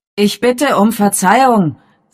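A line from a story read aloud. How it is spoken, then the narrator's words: Loud voice. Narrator (German): sagte Father mit lauter Stimme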